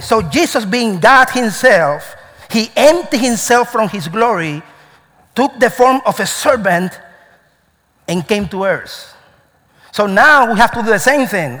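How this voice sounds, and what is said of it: Cuban accent in English. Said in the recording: “I'm Cuban, right? ... I also have an accent ... I have an accent.”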